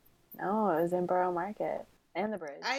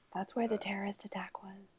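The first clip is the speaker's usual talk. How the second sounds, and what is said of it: Whispered remark. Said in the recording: “Why did you whisper that? ... Because I'm Southern and I have to whisper bad news.”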